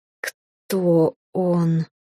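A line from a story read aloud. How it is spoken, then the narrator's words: Furious man, through teeth. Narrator (Russian): процедил, наконец, злющий блондин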